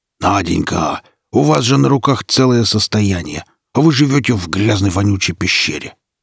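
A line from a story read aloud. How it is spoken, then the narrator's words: Furious growl. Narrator (Russian): Девушка взбешенный злобный не удержавшись, прорычала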